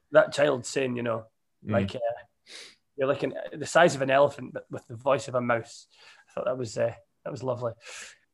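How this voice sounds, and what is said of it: Rough, strained, damaged-sounding voice. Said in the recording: “my voice is horrendous ... I am genuinely meant to be on voice rest ... with this noise”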